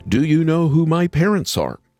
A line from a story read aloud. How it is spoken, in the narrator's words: yelling